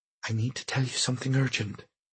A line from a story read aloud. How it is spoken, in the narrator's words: Janet said in her quietest voice